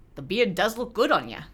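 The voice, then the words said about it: Imitates another person's voice, slightly Scottish. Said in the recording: “my own Christopher Eccleston impression ... That was pretty good. Had a little bit of Scottish in there, but it was still pretty good.”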